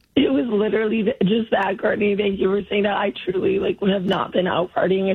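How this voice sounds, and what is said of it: Hoarse, strained voice. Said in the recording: “lost my voice ... your voice sounds that way”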